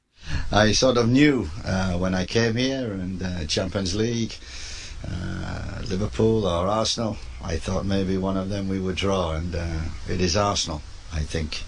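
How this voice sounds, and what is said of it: English speaker with Dutch-sounding accent. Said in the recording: “hilariously developed a Dutch accent while managing in the Netherlands ... the wandering accent ... talking, single Dutch”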